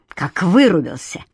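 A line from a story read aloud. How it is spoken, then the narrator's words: Sharp, curt. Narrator (Russian): резко бросила Катя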